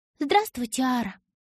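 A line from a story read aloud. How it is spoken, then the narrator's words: Polite high ringing voice. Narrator (Russian): вежливо проговорила она высоким звенящим голосом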